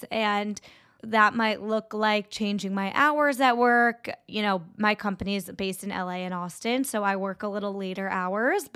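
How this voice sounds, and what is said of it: Congested, sick-sounding voice. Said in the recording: “I sound a little sick ... sniffle”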